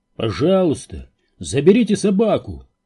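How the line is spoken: Shouted. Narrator (Russian): крикнул Тэтчер

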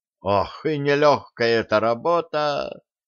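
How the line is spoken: Heavy sigh. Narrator (Russian): тяжко вздохнул Труссарди

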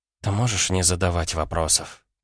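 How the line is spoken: Whisper. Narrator (Russian): прошептала Лена

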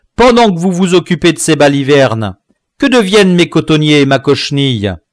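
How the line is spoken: Planter shouting. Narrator (French): criait un entrepreneur de culture

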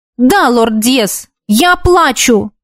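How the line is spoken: Sharp reply. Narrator (Russian): резко ответила ему

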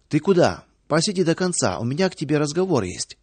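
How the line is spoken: Plain. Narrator (Russian): сказала заведующая

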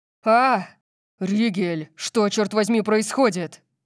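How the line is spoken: Roar. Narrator (Russian): Взревел Орион

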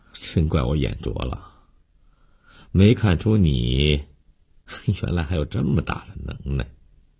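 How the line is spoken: Surprised gasp with smile. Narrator (Chinese): 他冲悠悠慢慢地笑了一下，倒吸凉气，表示惊讶

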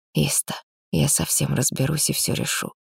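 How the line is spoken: Close intimate whisper. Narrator (Russian): прошептал, лаская дыханием кожу у самого моего уха

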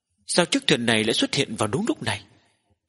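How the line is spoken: Startled muttering, village chief. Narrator (Vietnamese): Trưởng thôn cũng giật mình trong lòng, lẩm bẩm nói

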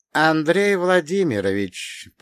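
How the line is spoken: Quiet, even, steely. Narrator (Russian): проговорил Василий Иванович тихим, ровным голосом, которым, однако, слышались стальные нотки

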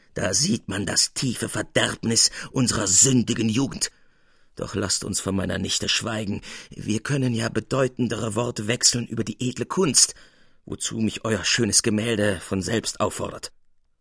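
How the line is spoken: Gruff, gloomy. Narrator (German): Finster vor sich hinblickend sprach er barsch

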